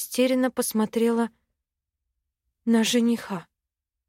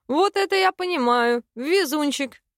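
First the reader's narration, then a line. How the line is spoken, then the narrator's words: Laughing nonstop. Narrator (Russian): Не переставал хохотать он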